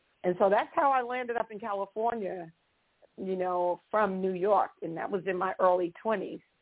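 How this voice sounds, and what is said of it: New York accent. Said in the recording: “the accent came from, New York”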